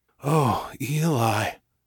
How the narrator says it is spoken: Chase whispered

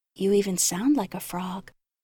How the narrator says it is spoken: I whispered

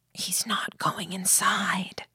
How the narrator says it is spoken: whispered

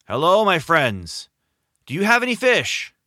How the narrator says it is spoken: James shouted back

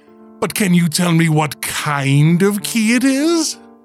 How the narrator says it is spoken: She giggled

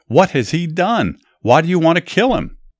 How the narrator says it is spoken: Jonathan yelled back

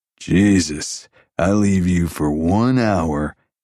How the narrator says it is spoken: Jason drawled

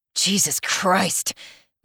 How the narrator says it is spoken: Mark mutters

